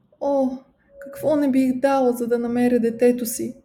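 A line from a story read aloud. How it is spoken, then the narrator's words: Weeping mother. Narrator (Bulgarian): каза разплаканата майка и заплака още по-силно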